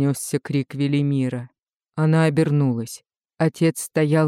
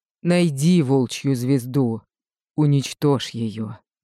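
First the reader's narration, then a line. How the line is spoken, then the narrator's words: Breathless gasp. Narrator (Russian): выдохнул он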